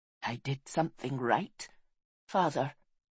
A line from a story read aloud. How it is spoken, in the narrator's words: he whispered